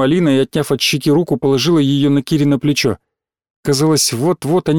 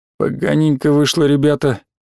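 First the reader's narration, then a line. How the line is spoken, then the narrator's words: Nervous grumble. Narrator (Russian): Дерюгин, взмокший, как на жаре, пробурчал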